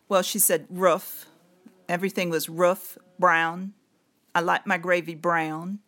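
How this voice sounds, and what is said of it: Tidewater Virginia accent, almost British. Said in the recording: “She had that Eastern Virginia Tidewater, almost like a British accent... Can you imitate how she talked?”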